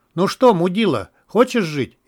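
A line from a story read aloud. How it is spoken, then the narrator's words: Mocking shout. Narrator (Russian): издевательски крикнул мародер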